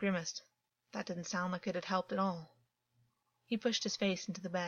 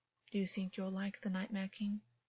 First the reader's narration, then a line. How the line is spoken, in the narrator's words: August whispered